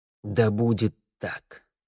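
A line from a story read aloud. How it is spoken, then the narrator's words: Forced strained words. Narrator (Russian): выдавил Харман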